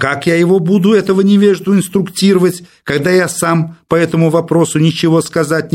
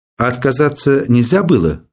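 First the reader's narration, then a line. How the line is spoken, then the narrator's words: Plain. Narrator (Russian): спросил Иванов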